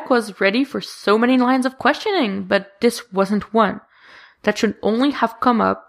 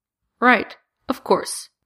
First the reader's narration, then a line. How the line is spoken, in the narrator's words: coldly